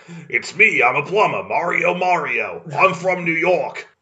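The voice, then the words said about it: Italian New Yorker accent impression. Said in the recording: “You sound like an Italian guy in New York as Bob Hoskins. ... Doing a Bob Hoskins impression.”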